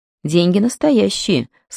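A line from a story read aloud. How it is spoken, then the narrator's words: Dry remark. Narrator (Russian): сухо заметила Мэлори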